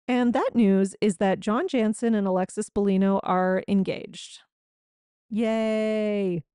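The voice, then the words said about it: Sarcastic fake cheer. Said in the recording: “That was sarcastic, in case you couldn't tell”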